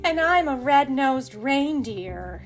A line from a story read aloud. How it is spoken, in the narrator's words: sighed Rudolph